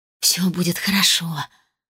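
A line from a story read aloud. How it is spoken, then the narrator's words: Whispered with forced smile. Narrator (Russian): с вымученной улыбкой прошептала она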